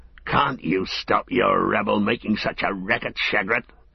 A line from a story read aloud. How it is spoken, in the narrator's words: grunted the one